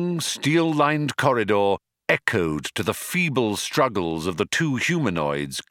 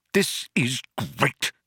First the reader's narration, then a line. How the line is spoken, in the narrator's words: spluttered Arthur